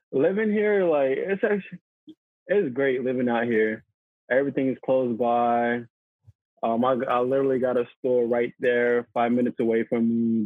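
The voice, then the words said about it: Newly acquired foreign accent. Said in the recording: “to hear your new accent is brilliant”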